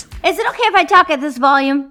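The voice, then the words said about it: Very loud, yelling voice. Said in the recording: “You're really yelling... you don't have to talk as if you're trying to reach New Zealand.”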